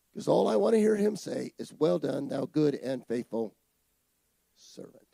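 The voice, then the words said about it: Voice in bad condition. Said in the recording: “My voice is bad.”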